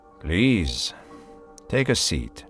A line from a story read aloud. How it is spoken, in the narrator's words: said Ruiz de Belasco calmly